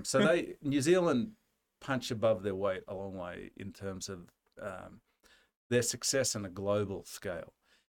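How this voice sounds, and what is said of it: Australian accent. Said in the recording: “people confuse my accent with a New Zealand accent or a South African accent or an English accent, although they're wildly different ... we Australians who live abroad”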